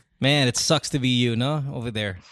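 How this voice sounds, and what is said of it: Sarcastic delivery. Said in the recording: “of course, I'm being sarcastic.”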